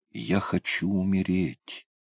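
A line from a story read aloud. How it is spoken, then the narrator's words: Quiet. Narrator (Russian): тихо проговорила девушка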